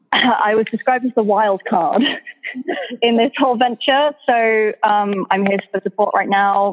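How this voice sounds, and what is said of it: English accent. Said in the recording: “as most of you will have told by my accent by now, I am from England ... we've got the token accent now”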